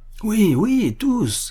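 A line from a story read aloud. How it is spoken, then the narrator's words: Crowd shouting everywhere. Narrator (French): s'écria-t-on de toutes parts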